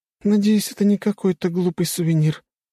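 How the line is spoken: Weary exhausted moaning woman. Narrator (Russian): вновь простонала уставшая и измученная рыжеволосая простолюдинка

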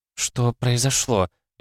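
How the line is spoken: Frightened question. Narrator (Russian): испуганно спросила Шинджу

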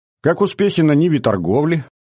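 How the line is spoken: Loud. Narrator (Russian): И громко добавил

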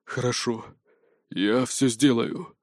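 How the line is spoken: Hoarse wheeze. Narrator (Russian): прохрипел

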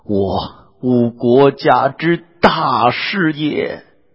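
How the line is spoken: Wailing. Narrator (Chinese): 尚书李福……乃大哭曰

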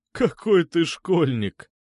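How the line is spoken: Laughing. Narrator (Russian): засмеялся Чердынцев

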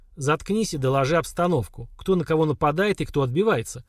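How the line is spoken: Calm. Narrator (Russian): Слава спокойно сказал

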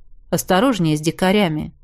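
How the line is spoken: Calm advice. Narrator (Russian): спокойно посоветовал

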